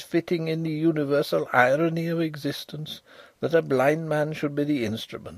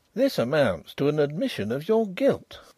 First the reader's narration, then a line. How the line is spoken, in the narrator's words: exclaimed Mr